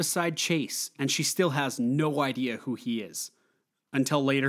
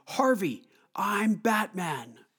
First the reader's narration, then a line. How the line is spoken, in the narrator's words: Bruce starts screaming